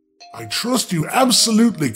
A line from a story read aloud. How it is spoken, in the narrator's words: cried the sucker, I mean the king